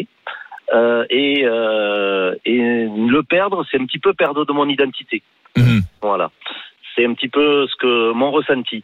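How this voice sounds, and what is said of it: Toulouse regional French accent. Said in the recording (French): “on a de l'accent là en vous entendant ... je suis Toulousain. Je suis fier de mon accent.”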